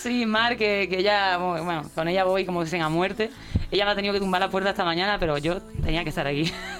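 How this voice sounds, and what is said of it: Andalusian Cádiz Spanish accent. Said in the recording (Spanish): “tiene acento de Cádiz”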